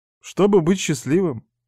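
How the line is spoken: Sad, smiling. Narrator (Russian): грустно улыбнулась

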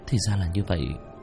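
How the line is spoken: Dazed muttering. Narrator (Vietnamese): Nam Lê Nguyệt tỉnh lại, lẩm bẩm

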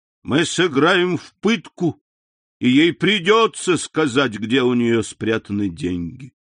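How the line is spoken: Boy exclaiming. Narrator (Russian): этот проклятый мальчишка, воскликнул

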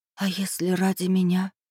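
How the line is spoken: Tearful near-whisper. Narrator (Russian): почти шепотом спросила, и слезы подступили к глазам

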